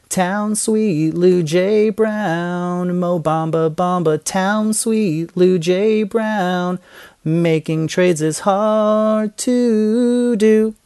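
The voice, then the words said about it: Shaky, slightly pitchy nervous singing. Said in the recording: “My voice may have been shaking a little bit. I'm a little nervous. ... If it was a little pitchy”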